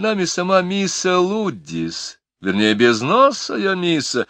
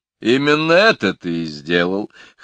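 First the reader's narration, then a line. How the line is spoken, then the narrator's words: Chuckling. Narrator (Russian): хохотнул Кофа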